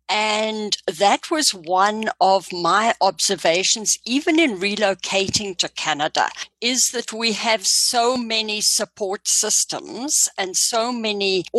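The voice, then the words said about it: Foreign accent. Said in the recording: “As you probably hear from the accent, I'm an immigrant to Canada.”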